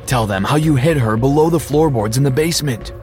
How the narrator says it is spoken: I yelled

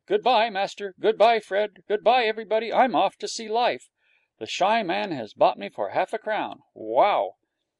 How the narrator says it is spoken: shouting

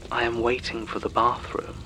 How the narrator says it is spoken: the flatmate said

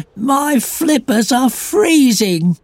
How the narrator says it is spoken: gasped Fluffy

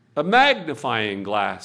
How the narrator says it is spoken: said Murphy

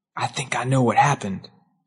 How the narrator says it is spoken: he leaned close to me and whispered

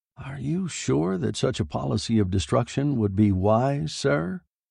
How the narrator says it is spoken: Boyette asked quietly

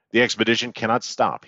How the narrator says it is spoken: said

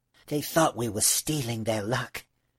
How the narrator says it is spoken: he whispered to the little girl

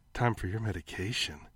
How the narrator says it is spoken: she purred

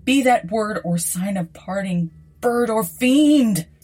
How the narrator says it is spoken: shrieked upstarting

